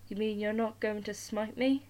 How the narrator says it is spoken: His voice shook and rattled like a beggar's tin outside the temples

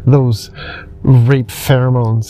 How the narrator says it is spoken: he spat

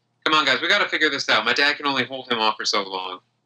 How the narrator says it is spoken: Roxanne quickly rushes over to the three of you and says

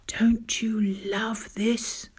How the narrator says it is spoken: he whispered to me

